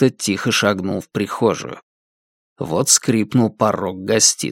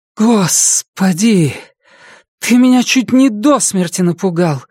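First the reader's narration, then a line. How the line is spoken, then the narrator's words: Breathless exhale. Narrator (Russian): выдохнула Памела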